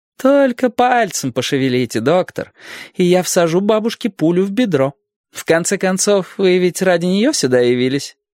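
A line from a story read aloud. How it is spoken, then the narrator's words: Laughing. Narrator (Russian): Она рассмеялась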